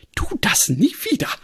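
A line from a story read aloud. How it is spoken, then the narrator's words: Agitated, barely composed cry. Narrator (German): rief Granny aufgeregt und schien heftig mit ihrer sonst so unbestechlichen Kontenance zu ringen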